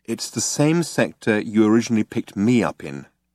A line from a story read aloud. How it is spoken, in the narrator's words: She said, very calmly